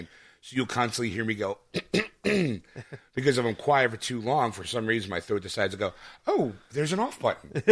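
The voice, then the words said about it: Voice cutting out, phlegmy. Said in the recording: “my voice will just go out ... I sound like a bad cell phone reception sometimes ... phrases will get knocked out and come back ... get the phlegm”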